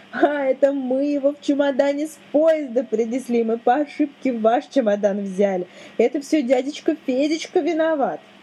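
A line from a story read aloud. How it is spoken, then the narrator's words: Laughing, shouting child. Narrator (Russian): Леночка засмеялась, закричала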